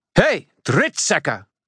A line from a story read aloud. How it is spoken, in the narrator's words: Murphy shouted